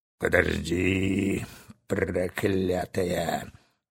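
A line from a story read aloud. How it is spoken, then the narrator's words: Muttering. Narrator (Russian): бормотал капитан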